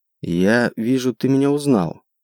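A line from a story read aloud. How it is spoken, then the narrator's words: Quiet gnome voice. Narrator (Russian): тихо произнес гном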